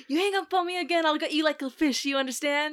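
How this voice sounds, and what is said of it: Put-on 70s New York accent. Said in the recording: “He has like a 70s New York accent”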